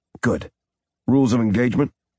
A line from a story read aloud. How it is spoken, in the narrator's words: Zack asked